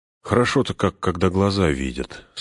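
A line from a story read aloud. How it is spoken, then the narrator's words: Deep contented sigh. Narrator (Russian): сказал Фродо, глубоко вздохнув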